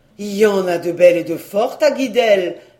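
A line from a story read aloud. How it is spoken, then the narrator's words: Exclaiming. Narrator (French): s'écria-t-il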